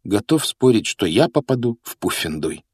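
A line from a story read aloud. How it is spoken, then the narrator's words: Gloomy remark. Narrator (Russian): мрачно заметил Гарри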